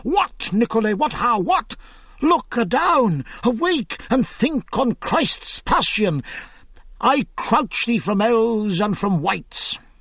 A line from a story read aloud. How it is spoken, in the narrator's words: cried spittously